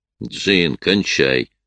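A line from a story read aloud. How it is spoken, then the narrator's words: Growl, growing angry. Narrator (Russian): прорычал Сэм, явно начиная злиться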